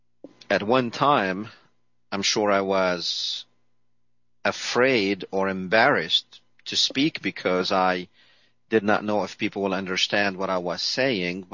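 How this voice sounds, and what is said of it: Speaker's noticeable non-native accent. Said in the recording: “you're listening to my accent”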